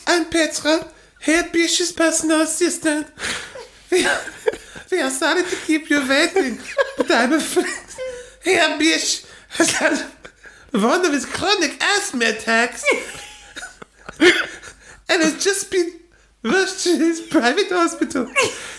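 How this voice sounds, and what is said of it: Reading in Petra's accent. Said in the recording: “In her accent. ... In Petra.”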